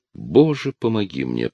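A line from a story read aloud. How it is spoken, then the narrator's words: Muttering. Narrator (Russian): пробормотал он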